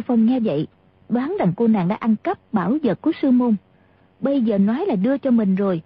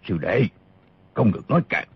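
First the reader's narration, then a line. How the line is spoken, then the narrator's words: Sharp shout. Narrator (Vietnamese): gã mập đã quát lên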